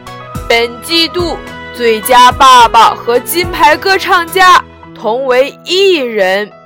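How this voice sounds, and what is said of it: Loud, booming tiger king voice. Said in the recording (Chinese): “老虎大王威风凛凛地站在台上，手拿麦克风，用洪亮的声音说道”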